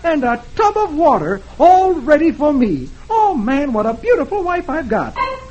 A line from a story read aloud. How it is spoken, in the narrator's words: he exclaims